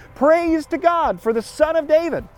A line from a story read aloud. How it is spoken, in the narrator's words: They even shout